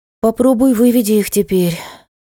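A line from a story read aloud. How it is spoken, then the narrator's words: Sighing. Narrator (Russian): вздохнула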